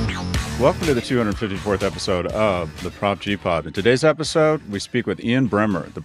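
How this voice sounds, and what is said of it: Usual voice. Nothing is said of it.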